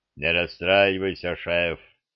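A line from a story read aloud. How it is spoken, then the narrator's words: Troll's booming drone. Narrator (Russian): прогудел тролль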